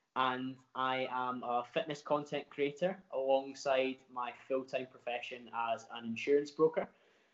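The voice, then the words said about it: Glaswegian Scottish accent. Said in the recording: “from Glasgow, if you cannot tell by the accent.”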